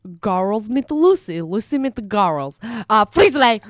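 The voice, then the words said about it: Gru cartoon character voice. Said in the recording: “really good Gru and Shrek ... Do your Gru. Do your Gru right now.”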